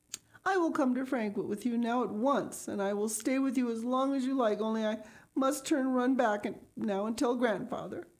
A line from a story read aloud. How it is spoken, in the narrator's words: The tears were streaming down her face, and she sobbed out